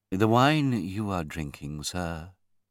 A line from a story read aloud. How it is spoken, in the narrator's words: the butler said quietly